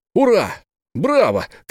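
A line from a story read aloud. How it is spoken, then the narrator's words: Shouted cheer. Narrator (Russian): крикнул в заключение Бен Зуф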